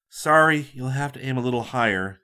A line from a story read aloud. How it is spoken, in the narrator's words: murmured